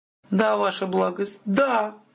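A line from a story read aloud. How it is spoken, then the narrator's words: Messenger nearly sobbing. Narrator (Russian): гонец едва не рыдал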